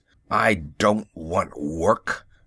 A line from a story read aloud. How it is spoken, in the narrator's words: said Hezekiah grimly